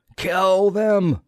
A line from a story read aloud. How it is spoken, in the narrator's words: roared the pilot